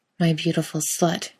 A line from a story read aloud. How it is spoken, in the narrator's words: Kate murmurs